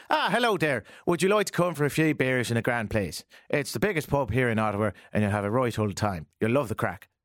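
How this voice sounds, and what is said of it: Put-on Irish accent, not very good. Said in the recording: “can you do an Irish accent? ... my Irish isn't very good.”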